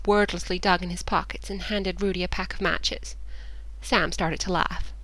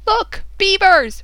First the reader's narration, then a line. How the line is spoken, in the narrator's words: Rudy yelled suddenly, his voice astonishingly loud compared to his usual soft tones